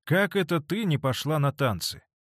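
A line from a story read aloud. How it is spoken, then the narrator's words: Sarcastic remark. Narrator (Russian): язвительно заметила Сара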